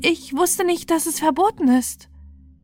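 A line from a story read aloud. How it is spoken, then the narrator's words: Shy, fearful apology. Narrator (German): entschuldigte sich die Königstochter schüchtern und ängstlich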